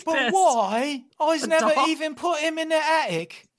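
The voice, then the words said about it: Put-on British accent. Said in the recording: “God, my British accent's good. I think I think our UK listeners would agree.”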